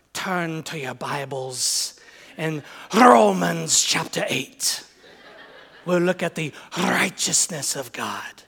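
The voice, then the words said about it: Put-on Scottish accent, like Alistair Begg. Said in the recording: “Even a Scottish accent wouldn't help Paul's preaching. ... a Scottish accent does help your preaching ... like Alistair Begg and Sinclair Ferguson”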